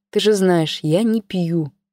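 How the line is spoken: Quiet. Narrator (Russian): тихо проговорила Маша

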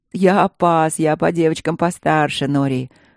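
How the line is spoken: Short laugh. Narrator (Russian): хохотнул Чет

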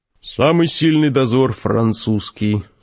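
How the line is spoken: Said in bored voice. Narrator (Russian): скучным голосом сказал Гессер

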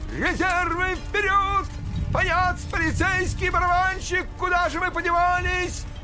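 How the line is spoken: Desperate shouting. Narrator (Russian): В отчаянии кричал Щелкунчик

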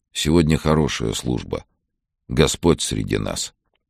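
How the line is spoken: Quiet. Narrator (Russian): тихо сказал

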